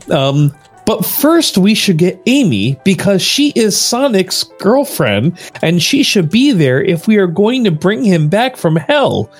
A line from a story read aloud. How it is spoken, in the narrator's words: shouted Shadow in an ideal way